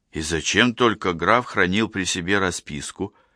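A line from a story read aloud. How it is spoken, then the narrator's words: Plain. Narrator (Russian): спросил я наконец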